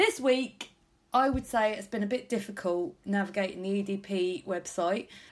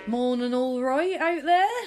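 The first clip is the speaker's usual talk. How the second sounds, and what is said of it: Put-on Norfolk accent, not very good. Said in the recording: “My Norfolk accent is getting worse every week”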